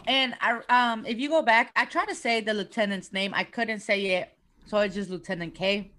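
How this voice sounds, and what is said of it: Speaker's own regional accent. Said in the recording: “I know I have an accent. I know this.”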